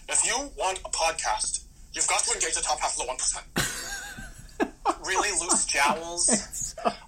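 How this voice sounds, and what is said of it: Brooklyn-accented impression, speeds up at end. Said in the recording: “the key to Bernie Sanders is the cadence... He, like, speeds up at the end and then finishes his point really quickly... his Brooklyn accent gets thicker”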